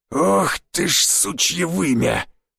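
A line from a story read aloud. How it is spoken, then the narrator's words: Hoarse rasp. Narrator (Russian): прохрипел Жига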